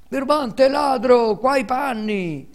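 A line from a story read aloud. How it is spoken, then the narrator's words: Two boys shouting. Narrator (Italian): urlavano i due infelici garzoni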